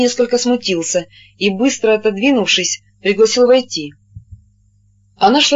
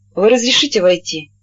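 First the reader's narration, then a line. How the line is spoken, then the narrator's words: Lady's slightly mocking question. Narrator (Russian): чуть насмешливо спросила дама, потому что он стоял на пороге и не двигался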